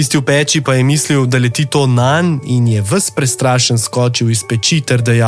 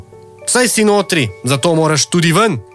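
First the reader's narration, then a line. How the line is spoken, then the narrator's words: Angry. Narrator (Slovenian): je rekel jezno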